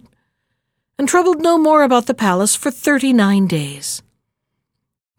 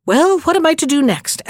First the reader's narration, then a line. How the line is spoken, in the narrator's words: asked the head cheerfully